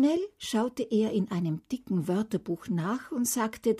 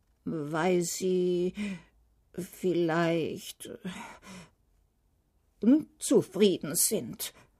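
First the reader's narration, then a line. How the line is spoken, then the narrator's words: King's barely audible mumble. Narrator (German): nuschelte der König, so dass ihn die Prinzessin kaum verstand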